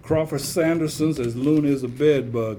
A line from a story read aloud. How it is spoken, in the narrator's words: answered